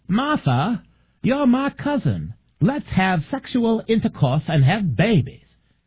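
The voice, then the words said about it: Bad put-on Maine accent. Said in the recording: “I do the worst Maine accent in the world ... It's kind of half Arkansas, half Maine”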